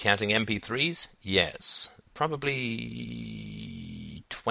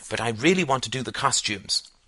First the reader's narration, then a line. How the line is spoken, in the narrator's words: snapped Greta